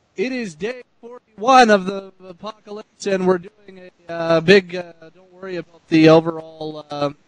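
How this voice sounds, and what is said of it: Imitates a glitchy, cutting-out microphone. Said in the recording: “Here's kind of what your mic sounds like when it goes. Here's my imitation. ... That's kind of what it sounds like. ... It's very accurate.”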